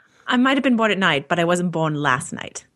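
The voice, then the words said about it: Fairly solid put-on British accent. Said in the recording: “Nice British accent there. It's pretty solid.”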